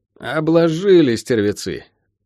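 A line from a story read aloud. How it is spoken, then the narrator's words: Muttered through teeth. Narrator (Russian): Процедил Шен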